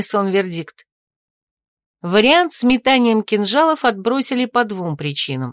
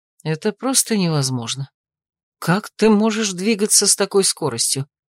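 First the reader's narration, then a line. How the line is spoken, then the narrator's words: Furious, through teeth. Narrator (Russian): Яростно процедил Томин, промахнувшись в сотый раз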